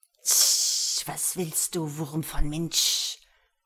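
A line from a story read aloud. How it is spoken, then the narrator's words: Hissing. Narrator (German): zischte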